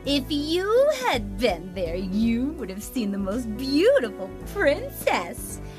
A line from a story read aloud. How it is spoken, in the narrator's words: exclaimed the eldest sister